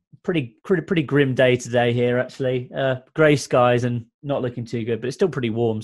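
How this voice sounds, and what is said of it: British Manchester accent. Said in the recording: “I can tell from your accent, you might be in a different time zone. ... I'm based in Manchester in the UK.”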